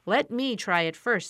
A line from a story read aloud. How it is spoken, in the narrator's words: said the Scarecrow